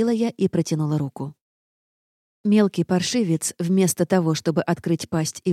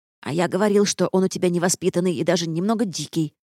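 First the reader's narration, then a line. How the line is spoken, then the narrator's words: Nasty, snide tone. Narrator (Russian): противным тоном прокомментировал Эдвард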